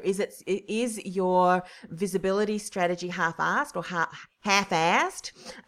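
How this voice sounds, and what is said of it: Poor fake American accent. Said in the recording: “That was a terrible US accent”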